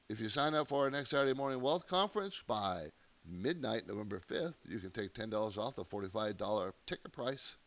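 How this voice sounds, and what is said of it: Hoarse congested voice from cold. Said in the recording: “I got a cold I'm fighting, so forgive my voice. ... sounded cold.”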